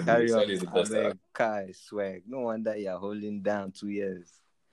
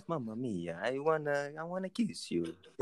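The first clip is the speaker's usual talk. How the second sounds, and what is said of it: Put-on Italian accent. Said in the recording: “the accent.”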